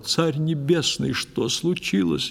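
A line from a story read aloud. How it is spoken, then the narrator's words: Exclaiming. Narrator (Russian): я воскликнул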